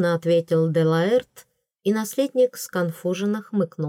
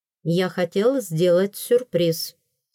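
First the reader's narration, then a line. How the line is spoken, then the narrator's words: Plain. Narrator (Russian): сказал первый принц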